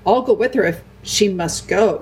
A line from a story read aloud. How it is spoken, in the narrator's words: said Edmund